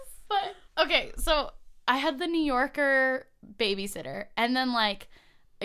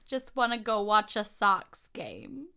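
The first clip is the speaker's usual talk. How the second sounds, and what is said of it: Bad put-on Boston accent. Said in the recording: “Boston? I'm really bad at a Boston accent.”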